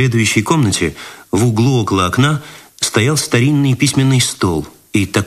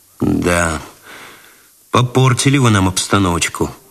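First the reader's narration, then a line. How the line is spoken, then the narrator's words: Sigh. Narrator (Russian): вздохнул Цветков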